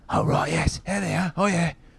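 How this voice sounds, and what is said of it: Poor put-on British accent. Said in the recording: “shoddy British accent”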